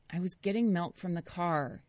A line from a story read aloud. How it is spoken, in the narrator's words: Nate said, his voice laced with irritation